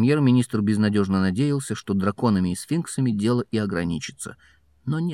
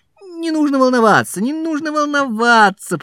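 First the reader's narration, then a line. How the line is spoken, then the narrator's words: Shouting. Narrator (Russian): прокричал Фадж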